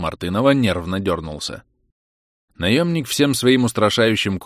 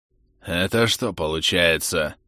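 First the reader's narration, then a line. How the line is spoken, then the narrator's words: Hoarse rasp. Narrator (Russian): прохрипел он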